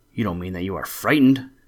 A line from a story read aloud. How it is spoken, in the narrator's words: exclaimed the three sisters together